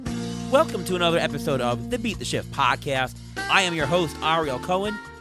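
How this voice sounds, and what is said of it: Slightly hoarse voice. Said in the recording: “getting a little bit better from last week's cold, still a little bit hoarse”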